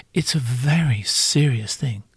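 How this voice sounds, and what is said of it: Mock serious voice. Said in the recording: “this is my serious voice.”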